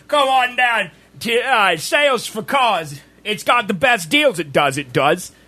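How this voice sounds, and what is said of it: Put-on British accent, car-salesman pitch. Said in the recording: “you feature your British accent.”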